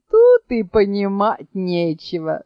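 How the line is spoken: Laughing. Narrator (Russian): засмеялся Гасан

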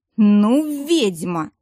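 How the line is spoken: Hiss. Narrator (Russian): прошипел Дияр

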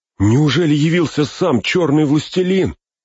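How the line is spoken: Terrified cry. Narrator (Russian): в ужасе вскрикнул Пин

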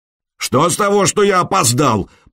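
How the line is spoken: Bellowing. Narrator (Russian): промейски заорал Харальд

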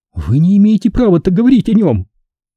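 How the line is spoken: Furious, anguished sobbing. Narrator (Russian): В ее рыданиях слышались одновременно и ярость, и страдания

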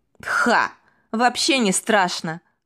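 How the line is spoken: Laughing. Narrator (Russian): рассмеялся он

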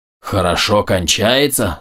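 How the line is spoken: Growled. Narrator (Russian): зарычал Больт

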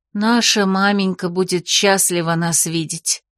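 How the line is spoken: Sigh. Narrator (Russian): вздохнула Августа

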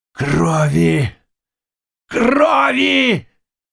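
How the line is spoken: Terrifying roar. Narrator (Russian): рявкнул он таким страшным голосом

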